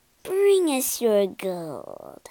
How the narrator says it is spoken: purred the other

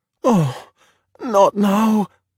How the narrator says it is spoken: Luca moaned

